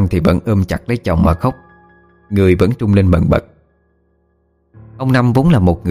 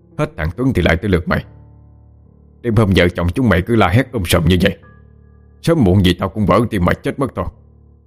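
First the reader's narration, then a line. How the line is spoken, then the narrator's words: Irritated near-shouting. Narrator (Vietnamese): không giấu được sự bực bội, nói mà như quát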